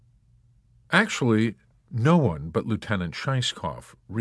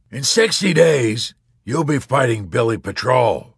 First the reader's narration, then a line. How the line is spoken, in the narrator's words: the colonel with a big fat mustache roared